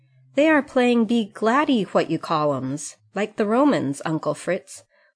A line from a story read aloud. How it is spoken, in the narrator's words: called out Demi, whose eyes were bigger than ever with the excitement of this new pastime